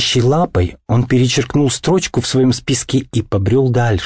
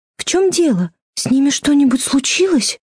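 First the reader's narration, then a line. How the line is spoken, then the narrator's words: Timid question. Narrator (Russian): робко спросила Фрёкин Снорк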